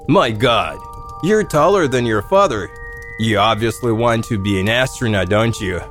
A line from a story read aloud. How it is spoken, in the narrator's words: My grandfather laughed